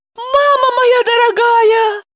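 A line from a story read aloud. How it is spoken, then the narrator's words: Woman shouting. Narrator (Russian): закричала она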